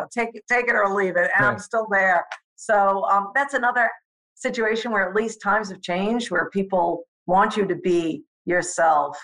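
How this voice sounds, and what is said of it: New York accent. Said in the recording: “I couldn't escape the New York accent ... I'm still going to have the accent. I'm still going to talk like this ... I let out more of the New York accent, and now here you go.”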